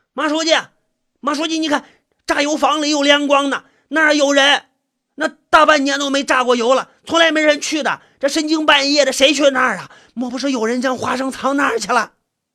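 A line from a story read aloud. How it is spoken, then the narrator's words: Loud clamoring. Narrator (Chinese): 一个人 大声的嚷嚷着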